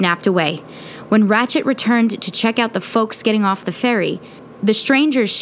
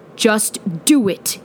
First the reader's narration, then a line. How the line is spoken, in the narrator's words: growled